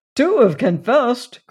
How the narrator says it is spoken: cried Randolph

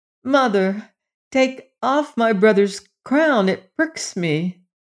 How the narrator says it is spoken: her little son cried

